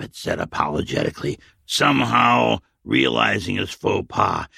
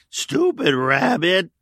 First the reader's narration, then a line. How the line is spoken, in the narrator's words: The old man could not stop laughing